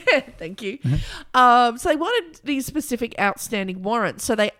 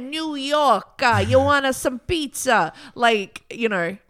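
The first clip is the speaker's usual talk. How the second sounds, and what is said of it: Good put-on New York accent. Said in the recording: “That's a very good accent”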